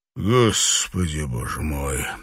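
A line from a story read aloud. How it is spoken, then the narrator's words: Gloomy. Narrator (Russian): мрачно сказал Данрос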